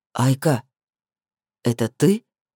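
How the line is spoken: Quiet, incredulous question. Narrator (Russian): спросил он тихо и недоверчиво

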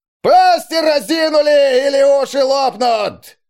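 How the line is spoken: Strained bellowing sergeant. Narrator (Russian): Надсаживаясь, заорал новобранцем какой-то сердобольный фельдфебель

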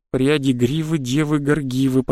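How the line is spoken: Hurried mutter. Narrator (Russian): пробормотал я торопливым

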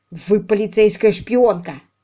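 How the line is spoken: Growled. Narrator (Russian): прорычал он

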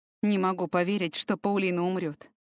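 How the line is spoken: Lost, dejected voice. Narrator (Russian): произнес Люк потерянным, упавшим голосом

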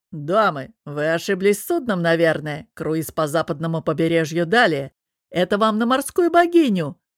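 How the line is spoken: Mustached sailor's booming bass. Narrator (Russian): забасил усатый матрос

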